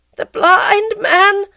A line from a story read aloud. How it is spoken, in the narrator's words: she cried